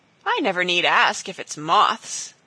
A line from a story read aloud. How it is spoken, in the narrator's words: laughed the girl